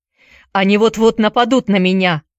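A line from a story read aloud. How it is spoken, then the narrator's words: Shouting. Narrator (Russian): крикнул Чакерс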